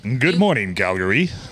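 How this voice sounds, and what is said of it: Booming morning radio DJ voice. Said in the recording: “Your voice is morning show radio DJ, 50,000 watts. ... 50,000 unstoppable watts. ... Good radio voices are smoky.”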